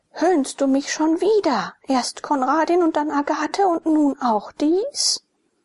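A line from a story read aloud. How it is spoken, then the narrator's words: Furious shouting. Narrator (German): In ohnmächtiger Wut schrie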